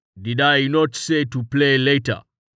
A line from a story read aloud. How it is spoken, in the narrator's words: Tallheart said sternly